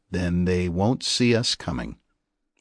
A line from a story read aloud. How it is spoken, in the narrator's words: said Ledger